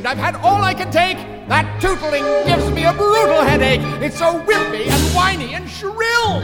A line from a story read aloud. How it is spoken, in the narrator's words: exclaimed